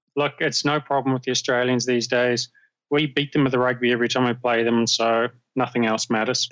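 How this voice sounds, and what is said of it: New Zealand accent. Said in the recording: “accent. Already I learned that ... was from New Zealand ... Not to be confused with an Australian accent”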